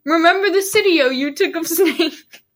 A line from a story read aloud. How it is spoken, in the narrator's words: Snape laughed again